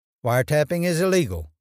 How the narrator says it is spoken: Muriel said

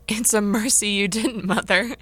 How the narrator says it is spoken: laughed Jo

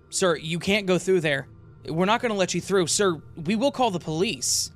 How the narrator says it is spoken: As I listened to the shouting, I could hear a man and woman yelling

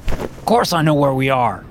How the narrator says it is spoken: snaps

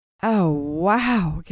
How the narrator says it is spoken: gasped Tracy

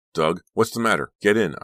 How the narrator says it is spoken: I shouted

